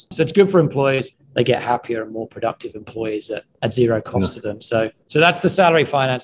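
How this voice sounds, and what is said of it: British accent. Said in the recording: “I grew up in the UK. You may detect that from the accent.”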